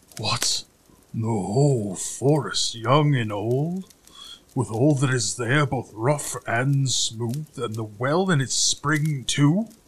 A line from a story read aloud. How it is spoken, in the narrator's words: growled the credulous giant in his head, still more terrified